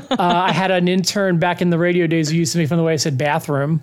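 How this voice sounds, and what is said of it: Philadelphia accent with a slight twang. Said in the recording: “It's like it's definitely like from where you are from. It's got a little bit of that twang to it. ... I'm from Philly.”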